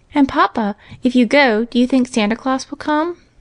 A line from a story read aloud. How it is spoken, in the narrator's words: asked Johnny anxiously